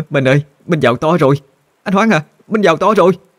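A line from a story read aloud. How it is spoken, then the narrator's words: Trembling, overjoyed woman. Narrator (Vietnamese): Bà ... run rẩy mà nói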